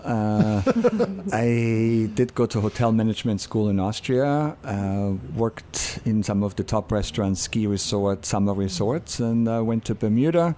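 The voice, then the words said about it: Austrian accent. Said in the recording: “I'm Austrian, so my accent is real.”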